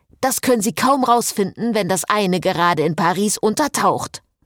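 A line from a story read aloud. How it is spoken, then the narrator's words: Thundered. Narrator (German): donnerte Frederik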